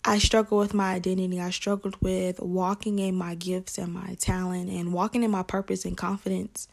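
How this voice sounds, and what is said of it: Southern American accent. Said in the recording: “I'm from Atlanta, Georgia. So you may hear an accent. I'm from the South.”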